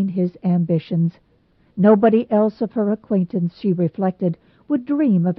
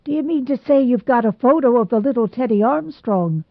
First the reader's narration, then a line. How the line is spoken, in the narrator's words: exclaimed Mr